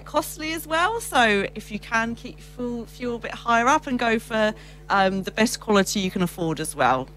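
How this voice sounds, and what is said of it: English accent. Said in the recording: “as you can probably tell from the accent, ... Grew up in England”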